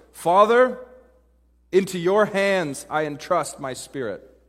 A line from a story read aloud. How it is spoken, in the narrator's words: Jesus called out from the cross with a loud voice